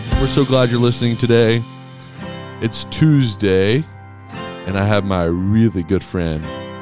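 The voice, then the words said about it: Exceptionally deep voice. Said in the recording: “Does my voice sound exceptionally deep today? ... You do sound deep. ... the morning. ... morning recordings. ... James Earl Jones here.”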